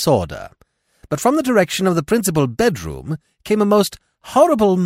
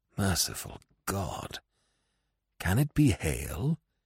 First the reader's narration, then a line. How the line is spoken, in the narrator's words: he muttered